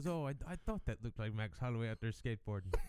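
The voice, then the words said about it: Terrible Conor impression. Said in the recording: “my terrible Connor impression”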